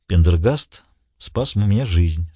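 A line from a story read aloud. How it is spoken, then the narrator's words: Calm. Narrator (Russian): спокойно сказал он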